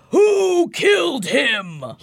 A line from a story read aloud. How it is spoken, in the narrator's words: He roars